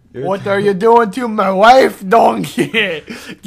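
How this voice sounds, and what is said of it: Ogre character voice sounding Mexican. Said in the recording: “Why do I sound like a ogres. Mexican?”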